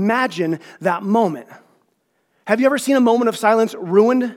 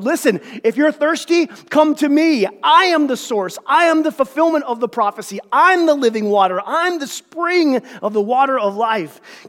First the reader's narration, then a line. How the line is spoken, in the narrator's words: Jesus stood and yelled